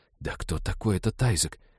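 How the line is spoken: Whispering in the ear. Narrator (Russian): зашептала Ивета на ухо Молли

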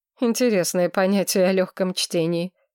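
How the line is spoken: Snorted. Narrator (Russian): хмыкнул Солсвик

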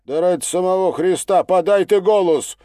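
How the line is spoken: Desperate shout. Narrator (Russian): уже почти без надежды выкрикнул он

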